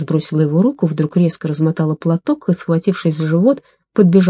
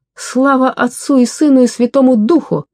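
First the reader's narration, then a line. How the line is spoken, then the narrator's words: Shouted. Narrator (Russian): крикнула она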